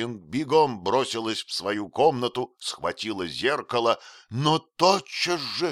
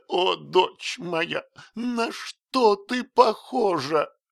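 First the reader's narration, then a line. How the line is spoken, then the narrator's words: Sobbing speech. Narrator (Russian): тот мог только проговорить, всхлипывая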